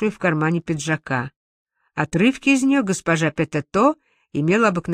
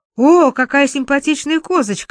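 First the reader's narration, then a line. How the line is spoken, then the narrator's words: Excited exclamation. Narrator (Russian): взволнованно воскликнула мадам Петето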